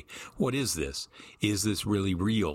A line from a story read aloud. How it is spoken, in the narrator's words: Stone said